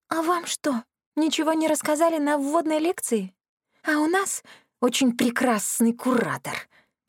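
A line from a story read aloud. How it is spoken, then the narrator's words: Hissing woman. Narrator (Russian): прошипела я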